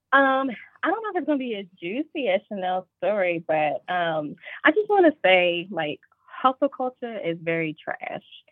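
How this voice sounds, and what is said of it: Southern American accent. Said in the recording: “you know I have a southern accent.”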